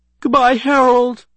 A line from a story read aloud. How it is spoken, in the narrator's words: He cried